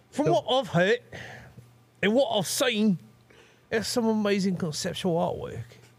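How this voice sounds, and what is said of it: Put-on Kiwi accent. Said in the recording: “can you read this like Andy Serkis? ... Is he South African? ... my accent is more of a Kiwi.”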